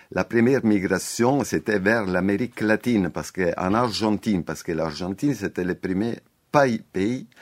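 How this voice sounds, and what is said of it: Italian (Calabrian) accent in French. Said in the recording (French): “Désolé pour mon accent, hein, breton... Je suis pas breton, je suis calabrais, désolé, non, je parle comme ça.”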